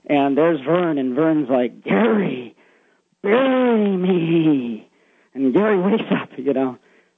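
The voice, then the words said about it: Really scary ghostly voice. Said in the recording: “In a really scary voice.”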